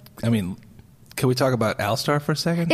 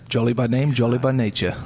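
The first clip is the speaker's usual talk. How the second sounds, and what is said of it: Failed attempt at Scottish accent. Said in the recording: “that was nowhere near his accent. I don't know what accent that was... He's Scottish... That's not a Scottish accent... No, I don't know what that was.”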